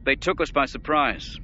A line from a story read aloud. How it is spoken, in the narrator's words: the Grand Admiral said irritably